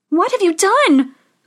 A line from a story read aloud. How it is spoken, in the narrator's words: cried Snow White